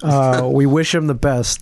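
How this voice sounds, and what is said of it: Sarcastic tone. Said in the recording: “I'm saying that sarcastically.”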